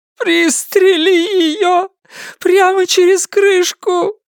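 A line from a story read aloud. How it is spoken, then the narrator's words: Sobbing woman. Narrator (Russian): зарыдала женщина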